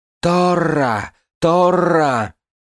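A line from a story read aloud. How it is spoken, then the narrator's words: Angry crowd shouting. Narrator (Russian): Толпа злобно кричала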